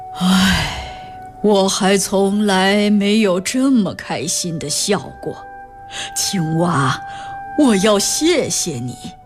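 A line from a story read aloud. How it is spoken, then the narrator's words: Sighing. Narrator (Chinese): 国王叹了口气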